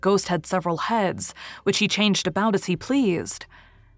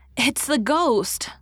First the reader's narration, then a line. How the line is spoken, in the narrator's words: little Jameis had cried